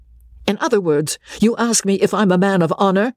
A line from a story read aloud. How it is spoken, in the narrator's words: said Osborne, fiercely